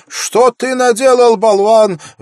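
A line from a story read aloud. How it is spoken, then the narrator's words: Angry shout. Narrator (Russian): в гневе закричала она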